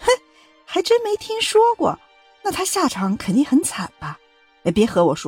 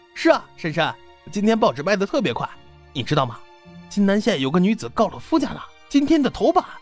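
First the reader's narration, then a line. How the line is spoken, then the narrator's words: Cheerful smiling reply. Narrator (Chinese): 报童笑着回答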